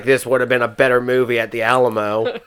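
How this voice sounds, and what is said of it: Imitates another person's voice. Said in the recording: “my spot-on interpretation of her her voice ... post-menopause Carrie Fisher ... my Carrie Fisher impersonation”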